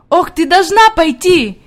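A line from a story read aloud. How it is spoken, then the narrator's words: Shouting while moving. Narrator (Russian): кричала она на ходу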